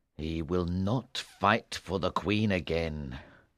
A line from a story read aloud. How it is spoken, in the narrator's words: King Arthur said bitterly